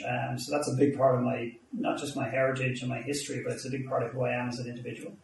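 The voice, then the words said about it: Irish accent. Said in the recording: “my accent ... I'm Irish”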